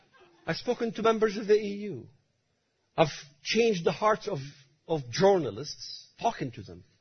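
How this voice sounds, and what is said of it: Strong foreign accent. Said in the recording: “my strange accent”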